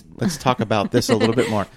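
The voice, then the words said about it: Canadian accent slipping through. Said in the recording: “The Canadian just came out in you. ... that Canadian accent”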